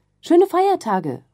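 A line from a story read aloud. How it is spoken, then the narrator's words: Colleague's effusive call. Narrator (German): ruft die Kollegin noch überschwänglich nach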